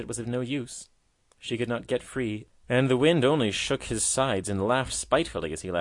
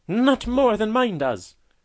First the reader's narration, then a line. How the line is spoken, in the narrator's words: cried the proud white lily